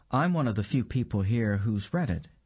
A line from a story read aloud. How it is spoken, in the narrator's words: she said